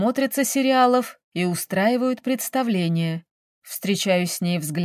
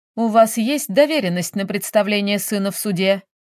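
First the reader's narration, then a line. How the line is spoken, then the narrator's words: Stern question. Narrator (Russian): спрашивает судья строго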